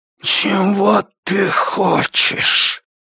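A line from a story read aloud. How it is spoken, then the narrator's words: Breathed out. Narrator (Russian): выдохнул он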